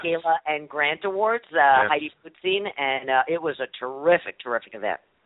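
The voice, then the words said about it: Slightly hoarse voice. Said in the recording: “I'm a little hoarse from being out at an event last night where I think I talked for like 3 hours straight.”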